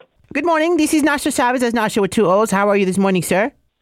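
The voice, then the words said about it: Put-on Guatemalan-style accent. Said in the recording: “Do I let him know that you're half Guatemalan? Because I have quite the accent.”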